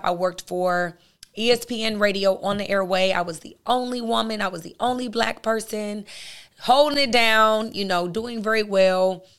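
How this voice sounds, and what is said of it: Raspy, hoarse voice. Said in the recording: “My voice is totally raspy, guys. This is not how I typically sound.”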